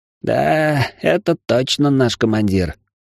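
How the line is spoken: Grumbling. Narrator (Russian): проворчал Зигзаг

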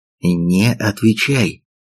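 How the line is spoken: Whisper. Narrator (Russian): шепнул Чондо

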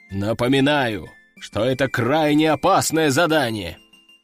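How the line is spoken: Deep bass voice. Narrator (Russian): пробасил Собутыльев

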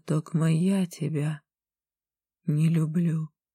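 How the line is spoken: Barely audible. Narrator (Russian): сказала чуть слышно

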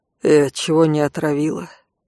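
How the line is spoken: Muffled, flat question. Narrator (Russian): глухо поинтересовался Конт

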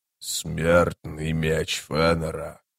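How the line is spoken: Quiet low voice, Greek. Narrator (Russian): сказал он по-эллински тихим, низким голосом

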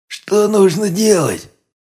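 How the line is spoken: Tense, drink-ruined voice, big man. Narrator (Russian): напряженно спросил пропитым голосом здоровенный детина

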